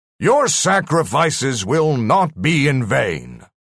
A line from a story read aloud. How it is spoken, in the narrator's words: the voice boomed out